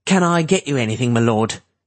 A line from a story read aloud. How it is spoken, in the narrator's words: Cap asked in a loud voice